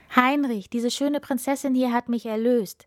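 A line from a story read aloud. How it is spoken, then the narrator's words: Joyful call. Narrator (German): rief der Prinz freudig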